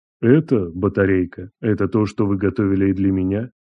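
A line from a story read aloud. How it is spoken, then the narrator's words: Quiet, pitiless icy calm. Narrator (Russian): Тихо произнес Андрей, и в его голосе не было даже тени жалости, только ледяное спокойствие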